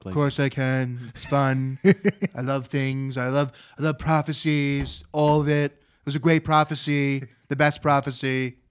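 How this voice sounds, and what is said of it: Donald Trump impression. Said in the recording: “can you do an impression of Trump? ... That's actually pretty good. Pretty good.”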